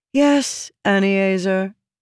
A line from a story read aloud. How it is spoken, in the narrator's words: Jasnah said in a suffering tone